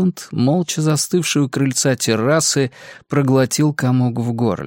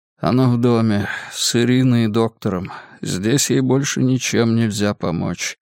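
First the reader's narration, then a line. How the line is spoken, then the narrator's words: Hollow, lifeless tone. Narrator (Russian): промолвил Максимилиан глухим, безжизненным тоном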